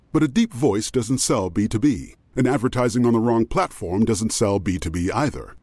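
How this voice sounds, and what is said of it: Very deep male voice. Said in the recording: “As a person with a very deep voice”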